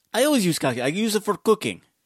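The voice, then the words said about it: Bad Ukrainian accent. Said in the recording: “I always do bad Ukrainian ... Accent.”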